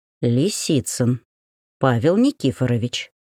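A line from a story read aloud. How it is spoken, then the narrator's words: Whispered in the ear. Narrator (Russian): шепнула на ухо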